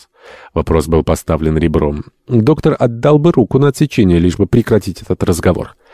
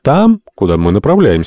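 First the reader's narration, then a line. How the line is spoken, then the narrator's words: Calm. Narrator (Russian): спокойно ответил Альтамонт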